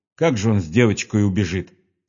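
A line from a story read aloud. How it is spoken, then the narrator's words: Plain. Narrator (Russian): сказала Марья Павловна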